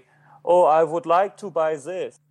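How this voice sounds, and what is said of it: Exaggerated heavy foreign accent. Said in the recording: “if I had a heavy accent, like a heavy”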